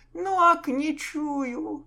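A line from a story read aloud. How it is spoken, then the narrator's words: Whimpering. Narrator (Russian): заскулил капитан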